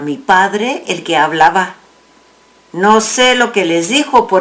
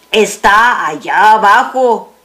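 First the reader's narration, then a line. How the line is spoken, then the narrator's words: Plain. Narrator (Spanish): dijo alguien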